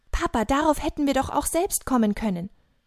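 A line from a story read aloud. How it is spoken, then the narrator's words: Calling out. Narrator (German): Daniel entziffert die Worte und ruft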